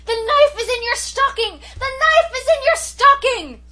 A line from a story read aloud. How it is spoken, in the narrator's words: I shrieked at the top of my voice